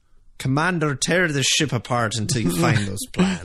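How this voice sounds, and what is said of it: Put-on Scottish accent. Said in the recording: “with a Scottish accent coming out of it”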